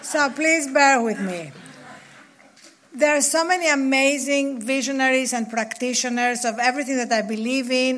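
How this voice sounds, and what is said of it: Noticeable non-native English accent. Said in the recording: “he does not have an accent... despite uh, all my years in England and here, I cannot get rid of it... Stop worrying about your accent.”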